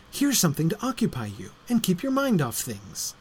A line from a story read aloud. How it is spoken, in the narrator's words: said Trillian in a bright, compassionate tone